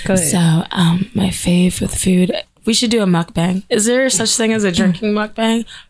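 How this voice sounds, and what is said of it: Husky voice. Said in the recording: “I love my husky voice too. So anything I say comes out sexy right now”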